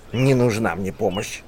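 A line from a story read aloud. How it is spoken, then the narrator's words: Old man grumbling. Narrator (Russian): буркнул старик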